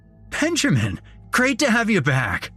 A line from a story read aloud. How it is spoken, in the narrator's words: He basically shouted